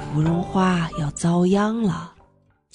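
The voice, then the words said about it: Quiet, hushed speaking. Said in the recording (Chinese): “海马在我身后小声说”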